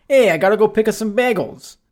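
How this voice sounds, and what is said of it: Put-on New York accent. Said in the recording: “I was doing our New York accent ... I wanted to try to do a New York accent ... Yeah, that was pretty good.”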